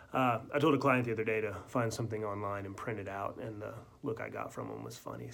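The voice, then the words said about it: Sick-sounding voice. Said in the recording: “You may be able to tell from my voice. ... I'm not feeling well. I've got the flu.”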